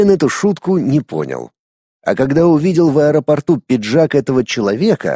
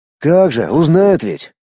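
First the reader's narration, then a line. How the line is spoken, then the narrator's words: Snort. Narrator (Russian): хмыкнул тогда Юра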